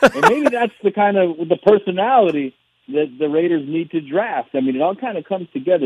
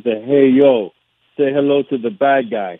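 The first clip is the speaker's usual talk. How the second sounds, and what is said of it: Fake Cuban accent, Razor Ramon. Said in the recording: “my Cuban accent, or the fake Cuban accent anyway ... that's Razor Ramon, a.k.a. Scott Hall”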